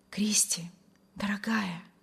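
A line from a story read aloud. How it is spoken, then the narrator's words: Rapturous whisper. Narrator (Russian): восторженно шептал Вильям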